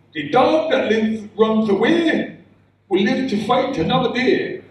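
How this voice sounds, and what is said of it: Put-on Asian accent. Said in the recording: “That was my dad speaking in a Asian accent.”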